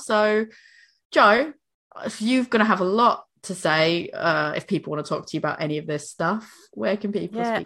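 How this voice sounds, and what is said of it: Hoarse, fading voice. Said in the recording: “I'm losing my voice now.”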